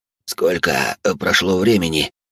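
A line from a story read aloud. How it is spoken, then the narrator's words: Hoarse rasp. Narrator (Russian): прохрипел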